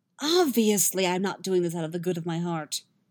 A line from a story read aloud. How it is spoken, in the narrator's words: Yennefer snaps